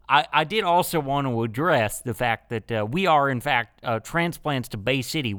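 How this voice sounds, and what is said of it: Put-on Southern US accent. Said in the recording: “we all have Southern accents instead of Wisconsin accents”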